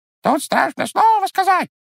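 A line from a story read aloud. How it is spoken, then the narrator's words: Squeaking. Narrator (Russian): пискнул птичий нос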